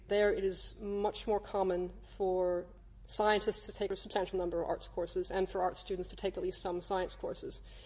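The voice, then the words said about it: American accent. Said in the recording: “As you can hear from my accent, I'm from the U.S. originally”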